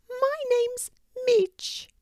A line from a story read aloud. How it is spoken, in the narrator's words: squeaked